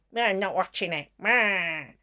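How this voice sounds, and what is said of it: Mocking old man voice. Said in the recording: “That's your old man voice.”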